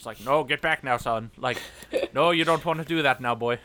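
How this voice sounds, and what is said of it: Put-on Irish accent. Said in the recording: “this great like Irish accent.”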